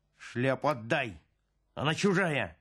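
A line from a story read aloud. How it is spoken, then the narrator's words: Barking shout. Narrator (Russian): рявкнул Пал Палыч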